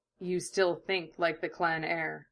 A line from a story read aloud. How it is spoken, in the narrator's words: he murmured, smiling crookedly